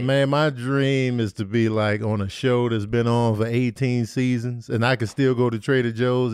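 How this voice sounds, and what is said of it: Smooth radio-style voice. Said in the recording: “You got a good radio voice.”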